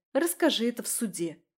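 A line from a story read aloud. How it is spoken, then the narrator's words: Scoffing snort. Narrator (Russian): фыркнула я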